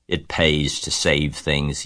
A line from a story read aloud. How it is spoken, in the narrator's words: he said in his surly voice